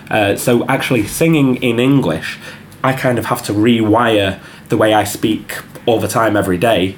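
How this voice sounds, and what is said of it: Mancunian English accent. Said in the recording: “my normal accent is quite dull accent... The Mancunian accent is not... bright”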